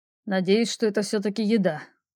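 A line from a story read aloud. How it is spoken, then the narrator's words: Grumbling. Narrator (Russian): проворчал принц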